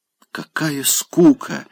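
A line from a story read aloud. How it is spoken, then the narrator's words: Quick whisper. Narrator (Russian): успела шепнуть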